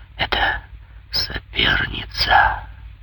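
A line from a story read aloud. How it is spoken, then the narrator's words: Sorrowful inner whisper. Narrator (Russian): в глубине ее сердца какой-то еще более горестный голос прошептал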